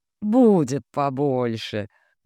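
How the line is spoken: Good-natured laugh, cook. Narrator (Russian): добродушно рассмеялась повариха

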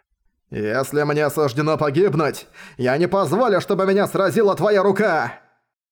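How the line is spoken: Furious roar. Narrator (Russian): Озлобленно взревел он

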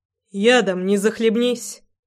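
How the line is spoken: Mocking snort. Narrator (Russian): насмешливо хмыкнул Рома

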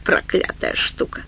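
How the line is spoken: Mutter carrying across hall. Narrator (Russian): Его бормотание отчетливо разнеслось на весь зал

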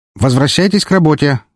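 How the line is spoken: Shouted. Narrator (Russian): крикнул

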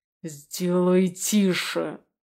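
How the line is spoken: Angry growl. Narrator (Russian): я прорычал зло

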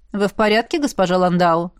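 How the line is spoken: Calm, cold. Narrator (Russian): спокойно и холодно произнес безопасник

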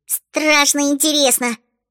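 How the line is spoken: Squeaky. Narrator (Russian): пискнула Чата

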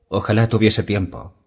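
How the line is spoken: Quiet reply. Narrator (Spanish): repuso Dany con voz queda

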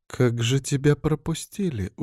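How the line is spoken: Surprised mutter to herself. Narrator (Russian): удивленно пробормотала себе под нос Маргарита

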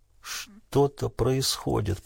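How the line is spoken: Mutter. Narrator (Russian): пробормотал Крейг

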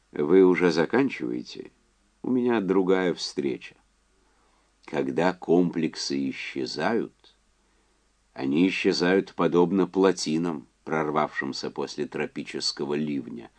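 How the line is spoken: Calm. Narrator (Russian): спокойно сказал Уэнлис

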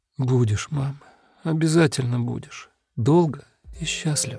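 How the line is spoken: Quiet tearful reply. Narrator (Russian): Плачет тихо и сквозь слезы отвечает

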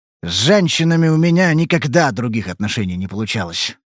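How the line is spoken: Grumbling. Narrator (Russian): проворчал он

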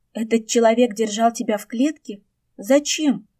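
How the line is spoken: Horrified exclamation. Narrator (Russian): в ужасе воскликнула Жолань

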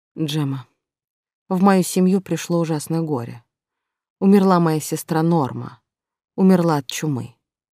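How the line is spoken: Lifeless voice. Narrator (Russian): Луиджи говорил безжизненным голосом

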